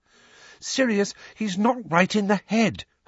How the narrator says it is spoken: Hermione pleaded

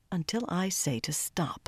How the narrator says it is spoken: Savannah said softly

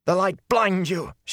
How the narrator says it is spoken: she cried

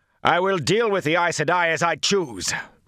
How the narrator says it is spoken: Rand shouted

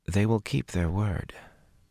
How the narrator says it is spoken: Min murmured abruptly

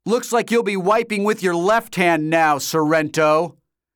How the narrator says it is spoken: Shoto shouted triumphantly

